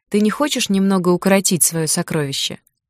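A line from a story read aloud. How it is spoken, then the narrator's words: Grumbling. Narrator (Russian): проворчала подруга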